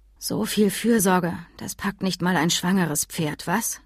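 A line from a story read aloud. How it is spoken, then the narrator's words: Soft voice. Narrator (German): sagte sie leise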